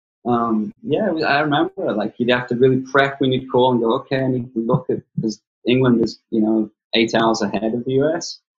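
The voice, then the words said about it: Gravelly northern regional accent. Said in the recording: “my accent because I'm from way north, you know, northwest coast, and my accent's all gravelly and freaking a mess”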